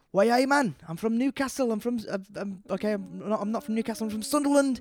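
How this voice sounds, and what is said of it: Put-on Sunderland accent, Newcastle-like. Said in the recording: “the Sunderland accent's really hard to do. So it's basically a Newcastle accent, which is already difficult to do, and then it's like slightly modified”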